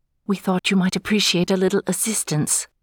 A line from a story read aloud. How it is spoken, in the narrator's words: She whispered